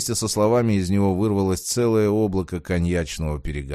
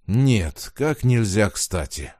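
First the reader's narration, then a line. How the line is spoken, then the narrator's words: Breathy exhale. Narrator (Russian): выдохнул Платон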